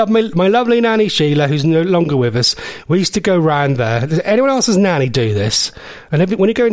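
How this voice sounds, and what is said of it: Usual voice. Nothing is said of it.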